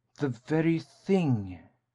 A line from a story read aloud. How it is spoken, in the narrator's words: Kate exclaimed, with a sigh of relief